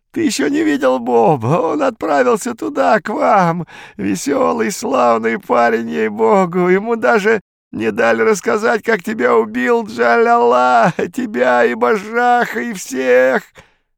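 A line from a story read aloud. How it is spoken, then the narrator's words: Sobbing laughter. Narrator (Russian): Виконт разразился рыдающим хохотом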